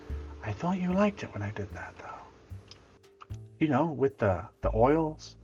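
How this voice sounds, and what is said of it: Whispering under the breath. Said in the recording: “under my breath, whisper”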